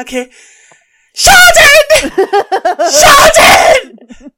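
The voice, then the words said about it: Stressed shouting Essex-accented impression. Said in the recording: “doing an impression of my mum here ... it's going to sound really offensive ... this is also how I sound with my Essex accent when I'm stressed”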